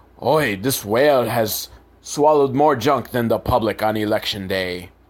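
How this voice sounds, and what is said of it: Poor character voice impression. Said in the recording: “I can't do a good impersonation. If I could do impersonations, that would be my job”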